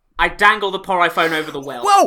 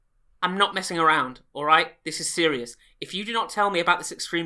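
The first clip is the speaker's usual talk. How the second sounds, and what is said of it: Mock-serious stern voice. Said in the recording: “I know you put your serious voice on”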